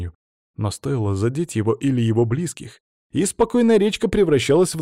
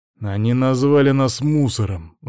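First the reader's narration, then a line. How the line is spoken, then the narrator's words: Furious growl. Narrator (Russian): зарычал от ярости Антон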